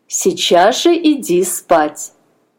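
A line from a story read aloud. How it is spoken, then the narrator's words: Stern aunt. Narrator (Russian): строго сказала тетя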